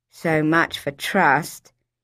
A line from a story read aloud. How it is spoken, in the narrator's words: she said in a flat voice